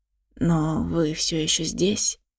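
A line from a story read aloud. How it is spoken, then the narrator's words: Hoarse tracker. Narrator (Russian): хрипло проговорил следопыт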